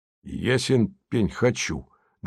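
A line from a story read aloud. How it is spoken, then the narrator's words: Rather rude. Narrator (Russian): довольно грубо сказал внутренний голос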